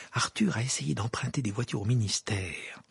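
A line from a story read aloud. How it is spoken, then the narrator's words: Whisper in ear. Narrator (French): murmura Madame Wesley à l'oreille de Harry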